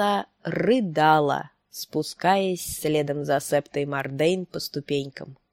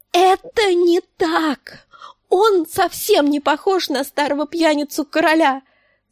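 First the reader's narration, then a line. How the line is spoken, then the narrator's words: Grief-stricken shout. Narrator (Russian): закричала она на сестру, забывшись в своем горе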